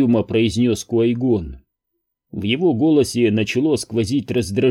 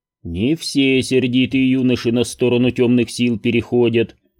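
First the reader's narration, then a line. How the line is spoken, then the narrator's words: Calm objection. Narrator (Russian): спокойно возразил Йода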